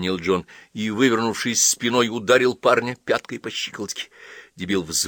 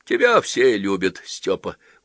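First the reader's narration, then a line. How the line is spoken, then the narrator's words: Tired agreement. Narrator (Russian): устало согласился Седой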